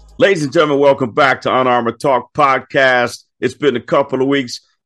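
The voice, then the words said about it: Deep voice. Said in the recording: “I know you love this deep voice.”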